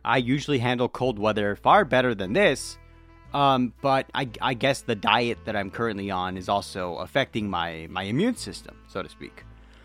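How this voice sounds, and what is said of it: Sick voice with sore throat. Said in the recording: “you can hear it in my voice. I'm not the best right now... I am not well. In my throat, I mean... this cold weather's been kicking my ass lately”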